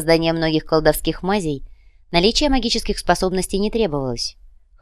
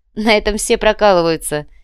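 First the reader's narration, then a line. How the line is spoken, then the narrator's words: Laughing young woman. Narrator (Russian): рассмеялась девушка, вспомнив собственные страдания на первой практической работе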